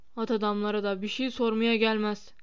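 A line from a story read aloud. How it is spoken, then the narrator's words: Grumbled. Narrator (Turkish): diye homurdandı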